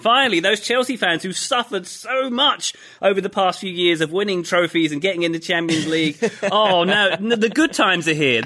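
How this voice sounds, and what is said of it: Sarcastic, mock-enthusiastic tone. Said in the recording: “being sarcastic.”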